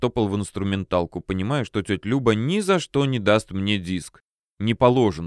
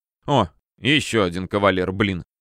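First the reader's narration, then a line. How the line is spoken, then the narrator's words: Displeased snort. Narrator (Russian): хмыкнула та, как обычно, с недовольным видом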